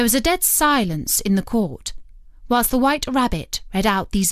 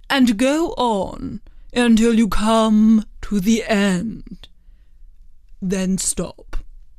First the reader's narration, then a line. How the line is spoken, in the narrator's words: the King said gravely